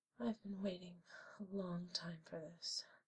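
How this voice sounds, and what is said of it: Whispering voice. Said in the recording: “Do you hear my voice whispering?”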